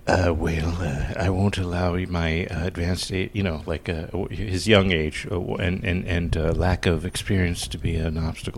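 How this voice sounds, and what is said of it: Ronald Reagan impression. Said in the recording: “You do a fine impersonation of Ronald Reagan.”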